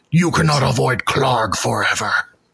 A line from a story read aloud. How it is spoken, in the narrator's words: kind of just snarls and says